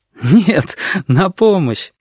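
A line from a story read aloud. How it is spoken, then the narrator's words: Grasshopper laughing loudly. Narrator (Russian): расхохотался кузнечик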